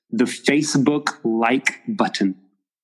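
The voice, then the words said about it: Put-on American accent. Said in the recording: “please excuse me for my American accent”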